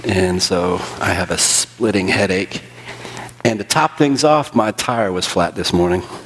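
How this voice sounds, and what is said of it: Congested, strained voice. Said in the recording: “I have been struggling, as you can hear in my voice, with pollen.”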